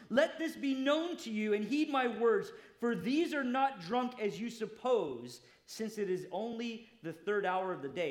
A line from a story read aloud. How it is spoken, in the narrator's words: Peter, standing up with the 11, raised his voice and said to the men of Judea and all who dwell in Jerusalem